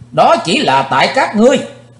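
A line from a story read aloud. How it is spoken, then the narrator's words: Sudden shout. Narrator (Vietnamese): Thình lình Chí Tôn hét lên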